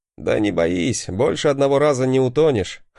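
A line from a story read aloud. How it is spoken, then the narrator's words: Laughing. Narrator (Russian): хохотнул я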